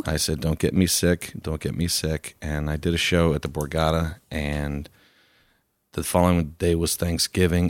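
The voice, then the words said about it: Hoarse, recovering voice. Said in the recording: “I've lost a voice, and now I'm just getting it back ... my voice is feeling a little better. It's just, it's been really hoarse.”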